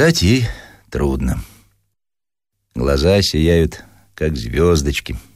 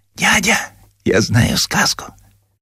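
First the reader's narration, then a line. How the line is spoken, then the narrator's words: Whispering. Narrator (Russian): шепотом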